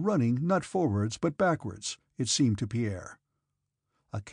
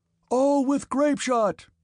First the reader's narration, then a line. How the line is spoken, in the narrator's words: shouted the officer